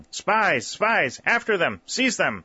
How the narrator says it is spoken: the northern men shouting

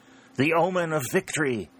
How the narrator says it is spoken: exclaimed exultantly

